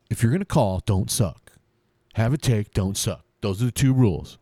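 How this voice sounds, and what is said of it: Imitates a sports talk host's voice. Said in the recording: “I was gonna try to do a Jim Rome impersonation today ... He's a sports talk guy. Kind of talks like this ... I gotta work on the timbre ... It's easy to match the tempo, but it's hard to match the timbre ... New Jersey dismissive? Is that accent? ... he's California”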